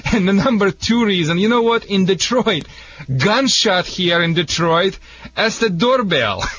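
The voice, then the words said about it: Speaks with a foreign accent. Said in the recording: “sorry for my accent. I mean, a lot of people think it's a Michigan accent. But it's a canine accent.”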